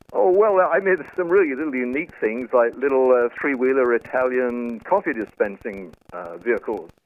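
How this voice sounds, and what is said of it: British English accent. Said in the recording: “the early British ... cars, of course. You judge from my accent.”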